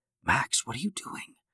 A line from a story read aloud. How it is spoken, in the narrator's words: She whispered